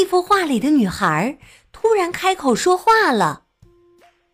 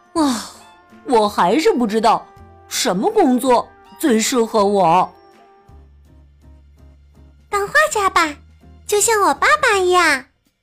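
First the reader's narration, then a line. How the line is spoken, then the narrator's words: Sighing. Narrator (Chinese): 本叹了一口气说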